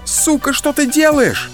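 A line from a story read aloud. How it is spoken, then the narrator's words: Screamed. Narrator (Russian): закричала Старикова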